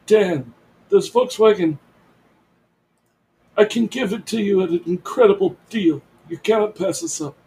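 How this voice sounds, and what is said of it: Imitates another person's voice. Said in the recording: “my Marlon Brando imitation”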